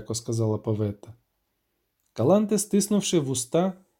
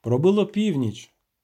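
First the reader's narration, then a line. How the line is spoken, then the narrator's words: Plain. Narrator (Ukrainian): сказав відьмак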